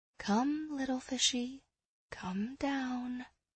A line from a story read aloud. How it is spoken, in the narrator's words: I murmured